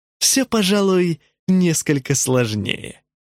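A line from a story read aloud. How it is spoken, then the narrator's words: Said, then laughing. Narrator (Russian): сказал Джентри и рассмеялся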